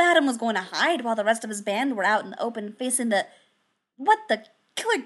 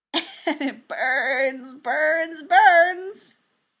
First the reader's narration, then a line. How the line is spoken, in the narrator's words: cackled